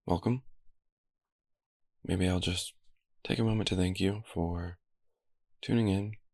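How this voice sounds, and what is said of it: Slightly coarse, rough voice. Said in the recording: “As I'm sure you can hear, my voice is a little coarse today”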